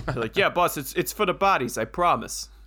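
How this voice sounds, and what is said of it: Put-on New York accent. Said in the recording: “your New York accent probably wasn't very good. It's much better than mine.”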